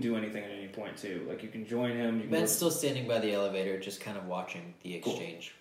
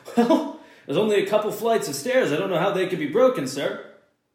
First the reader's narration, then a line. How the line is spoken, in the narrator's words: he just kind of laughs and said